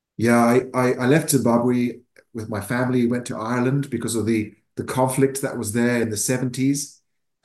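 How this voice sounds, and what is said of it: Mixed Irish, English, South African accent. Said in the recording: “my accent is a mixture of kind of Irish, English, and a bit of South African”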